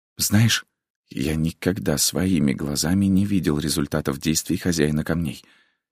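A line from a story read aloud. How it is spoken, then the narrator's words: Whispered. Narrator (Russian): прошептал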